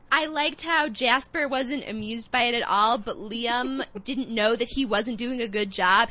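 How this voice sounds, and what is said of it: Nasal Midwestern American accent. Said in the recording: “my grating nasal Midwestern accent ... I'm actually from Chicago”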